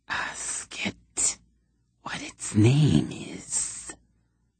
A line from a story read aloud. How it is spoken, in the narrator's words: a hissing whisper said from the darkness